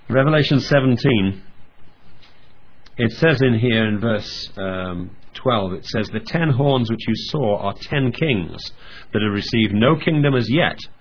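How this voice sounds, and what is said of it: Hoarse voice from a cold. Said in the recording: “please excuse my voice by the way, I'm recovering from a cold”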